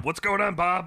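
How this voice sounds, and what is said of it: Teddy from Bob's Burgers impression. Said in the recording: “he sounded a little bit more like Teddy from Bob's Burgers ... it was a little gruffer, though ... it had a bit of a Chicago accent to it”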